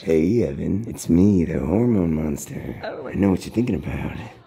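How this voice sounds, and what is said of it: Hormone monster character voice. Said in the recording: “my hormone monster impression”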